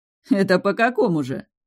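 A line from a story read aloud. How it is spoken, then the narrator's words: Insolent chuckle. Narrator (Russian): хохотнул наглоглазый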